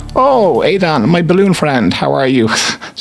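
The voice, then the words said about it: Bad put-on Dutch accent. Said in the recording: “that's my bad Dutch accent.”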